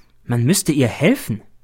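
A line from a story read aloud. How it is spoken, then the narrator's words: Plain. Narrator (German): sagt der B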